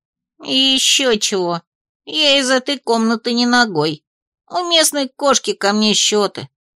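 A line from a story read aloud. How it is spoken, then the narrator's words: Grumbling. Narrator (Russian): проворчал он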